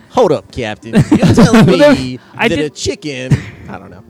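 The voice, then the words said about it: Imitates another person's voice. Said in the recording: “your iced tea impression. ... That's my spot-on iced tea impression.”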